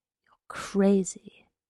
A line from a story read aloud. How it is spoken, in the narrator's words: she whispered